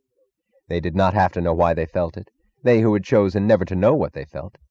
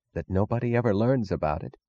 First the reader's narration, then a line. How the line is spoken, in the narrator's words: Wesley Mooch was whispering